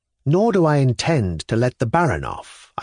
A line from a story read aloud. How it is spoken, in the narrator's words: I continued calmly, but with not a little discomfiture at de Gria's merriment